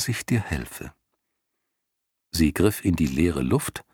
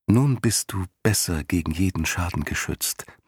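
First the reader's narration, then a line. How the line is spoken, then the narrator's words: Gentle. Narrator (German): meinte sie sanft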